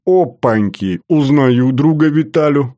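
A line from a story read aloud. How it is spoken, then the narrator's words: Loud laughter. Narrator (Russian): расхохотался Батоныч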